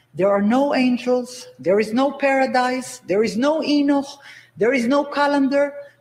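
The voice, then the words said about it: Thick accent. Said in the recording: “in case you can't understand her thick accent”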